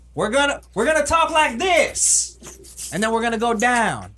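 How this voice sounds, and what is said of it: Joe Biden impression. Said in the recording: “get my Joe Biden impression down”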